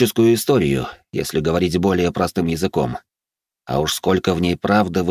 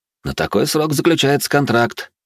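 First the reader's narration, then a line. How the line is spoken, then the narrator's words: Snorting. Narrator (Russian): хмыкнул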